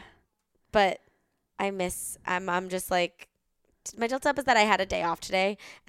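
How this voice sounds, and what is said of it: Tired-sounding voice. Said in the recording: “hear from my voice, I am a tired girl.”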